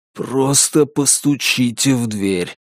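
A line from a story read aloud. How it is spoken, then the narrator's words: Hoarse wheeze. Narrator (Russian): просипел он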